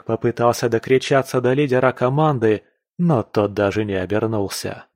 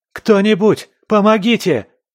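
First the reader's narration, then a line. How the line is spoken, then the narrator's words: Shouting. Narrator (Russian): кричал он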